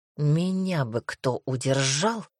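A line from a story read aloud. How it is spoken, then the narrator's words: Moan. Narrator (Russian): простонал Дамир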